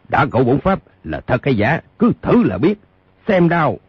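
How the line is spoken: Impatient elder's shout. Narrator (Vietnamese): Lương trưởng lão tính tình nóng nảy đã không nhịn nổi, quát

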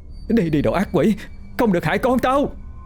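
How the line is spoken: Frantic screaming. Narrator (Vietnamese): bà Ngọc đang gào thét, miệng hét vang

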